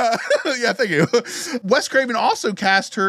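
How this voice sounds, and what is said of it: Usual voice. Nothing is said of it.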